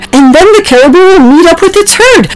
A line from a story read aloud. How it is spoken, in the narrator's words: Oliver said excitedly